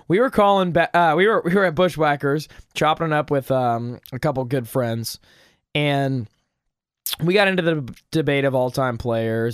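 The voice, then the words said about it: Hoarse voice, coughing. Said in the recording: “my voice is a little hoarse, slash I'm coughing a lot”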